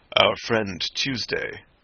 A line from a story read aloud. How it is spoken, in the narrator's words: said the president, in a deep voice at once of quietude and volume